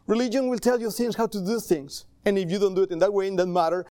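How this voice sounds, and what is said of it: Speaks with an accent. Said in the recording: “Sorry for my accent.”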